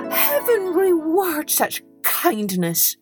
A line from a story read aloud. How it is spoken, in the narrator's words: cried Hans